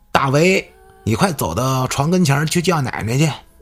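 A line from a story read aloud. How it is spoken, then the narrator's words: Uncle calling affectionately. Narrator (Chinese): 这三叔就叫他小名儿说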